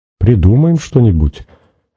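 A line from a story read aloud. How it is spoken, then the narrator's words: Uncertain. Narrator (Russian): неуверенно сказала Надя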